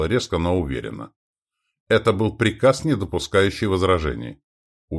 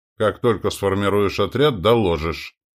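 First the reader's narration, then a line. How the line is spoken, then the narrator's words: Cold. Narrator (Russian): он холодно произнес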